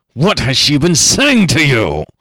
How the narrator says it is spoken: screamed the old man furiously

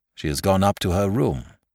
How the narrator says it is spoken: said the doctor

